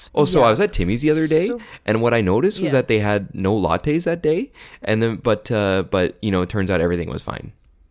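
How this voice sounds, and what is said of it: Canadian accent with rising sentence endings. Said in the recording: “you talk up at the end of your sentences until you're done talking, and then you talk down ... where you talk up and up, when it's time for the other person to talk, you talk down ... that's still Canadian to me”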